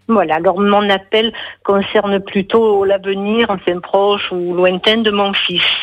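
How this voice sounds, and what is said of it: Marseille French accent. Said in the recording (French): “l'accent aussi ... L'accent bon, marseillais. ... c'est trop mignon, moi j'adore cet accent.”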